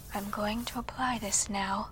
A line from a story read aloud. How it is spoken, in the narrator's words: she softly uttered